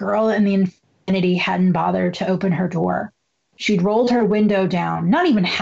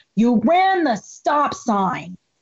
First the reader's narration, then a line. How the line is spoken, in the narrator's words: Angelina shouted